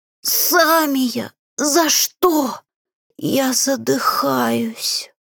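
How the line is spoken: Wheezing. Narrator (Russian): Захрипев

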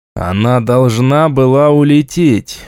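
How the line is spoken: Dejected voice. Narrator (Russian): упавшим голосом произнес я

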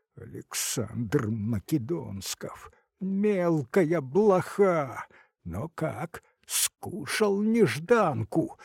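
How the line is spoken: Furious, contemptuous through teeth. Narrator (Russian): уничтожающе процедил сквозь зубы бледный от злости старшина

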